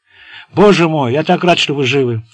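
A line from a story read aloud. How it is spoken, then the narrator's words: Joyful exclamation. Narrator (Russian): радостно вскричал Таррин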